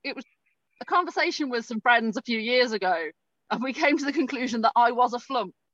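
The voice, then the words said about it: Polite English accent. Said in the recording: “my polite English accent”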